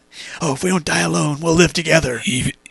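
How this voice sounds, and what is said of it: Raspy gravelly Batman-style voice. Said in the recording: “the Batman voice ... that raspy voice”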